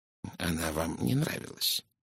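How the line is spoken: Soft, gentle. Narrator (Russian): мягко произнес Пуаро

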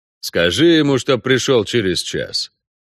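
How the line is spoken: Muffled grumble, little hope. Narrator (Russian): пробурчал Геральт из-под одеяла, не особо, впрочем, надеясь на успех

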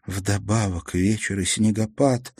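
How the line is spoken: Low voice, to herself. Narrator (Russian): вполголоса проговорила Мартина, как бы обращаясь к самой себе

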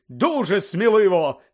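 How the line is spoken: Shouting. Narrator (Ukrainian): закричав Бегмен

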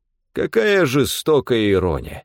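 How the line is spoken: Mock sigh. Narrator (Russian): притворно вздохнул Стефан

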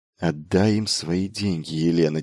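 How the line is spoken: Quiet command. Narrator (Russian): тихо приказал он

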